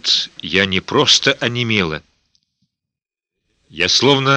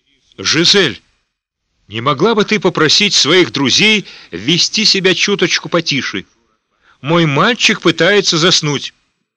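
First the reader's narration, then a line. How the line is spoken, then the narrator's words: Shouted. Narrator (Russian): Магдалина, перегнувшись через перила, прокричала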